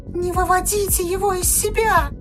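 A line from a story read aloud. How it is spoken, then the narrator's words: Pleading child. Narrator (Russian): взмолился маленький Блейн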